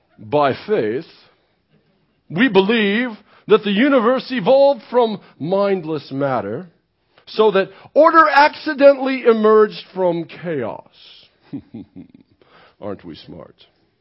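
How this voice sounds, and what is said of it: Snobby put-on accent. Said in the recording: “my snobby accent”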